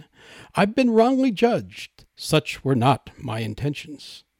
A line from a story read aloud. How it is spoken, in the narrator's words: exclaiming